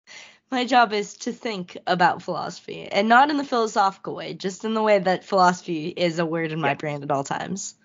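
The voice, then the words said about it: Rough, strained voice. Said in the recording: “I'm just really hoping I don't completely lose my voice, because we're even a little rough right now. ... Yeah, I'm noticing that.”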